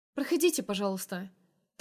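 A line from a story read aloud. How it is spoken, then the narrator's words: Rapid smiling chatter. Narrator (Russian): Тараторю с улыбкой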